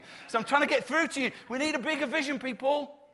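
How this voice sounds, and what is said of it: Shouting. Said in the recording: “I'm shouting”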